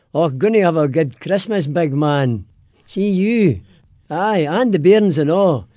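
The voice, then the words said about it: Broad Glaswegian Scottish accent. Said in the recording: “give me your best Merry Christmas in a Scottish brogue ... but in a Scottish accent, in Glaswegian ... Say that again in Glaswegian”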